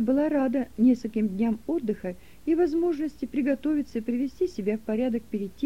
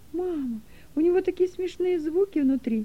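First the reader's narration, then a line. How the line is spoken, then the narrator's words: Joyful squeal. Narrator (Russian): радостно завизжал Дилека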